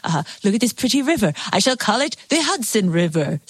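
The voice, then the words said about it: Henry Hudson impression. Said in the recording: “That was a very good Henry Hudson impression.”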